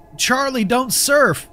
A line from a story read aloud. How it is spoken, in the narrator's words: whenever someone yelled out